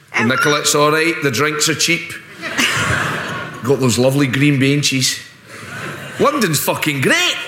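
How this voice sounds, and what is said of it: Imitates another person's voice. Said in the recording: “your Boris accent is much better than your Scottish one”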